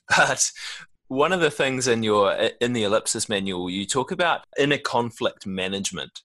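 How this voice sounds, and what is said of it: New Zealand accent. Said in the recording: “the New Zealand accent”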